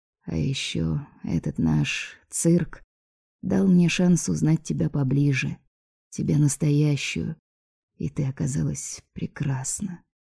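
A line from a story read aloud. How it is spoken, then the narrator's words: Dreamy, smiling. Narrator (Russian): Алекс немного мечтательно улыбнулся и сказал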